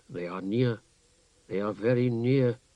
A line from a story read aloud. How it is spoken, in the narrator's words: Gamble said in a very low voice